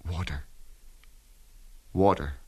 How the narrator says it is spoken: A weak voice whispered

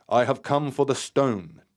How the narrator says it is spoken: Terry stated firmly

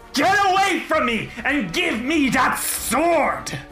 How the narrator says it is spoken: Narissa snarls and says

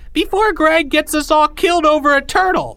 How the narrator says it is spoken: cried another

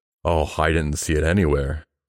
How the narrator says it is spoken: replied Mr

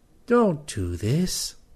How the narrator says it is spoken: the Worgen accompanying him pleaded

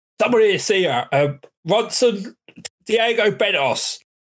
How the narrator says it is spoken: the other pokes his head in and shouts

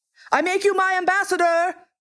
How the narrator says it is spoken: the king called out hastily

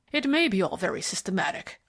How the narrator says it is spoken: growled the superintendent

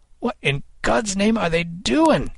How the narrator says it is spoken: Kid cried

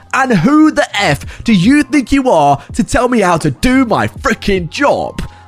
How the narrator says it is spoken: screaming in the CEO's face

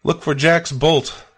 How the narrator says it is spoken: David shouted

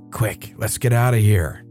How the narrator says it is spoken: she whispered to me

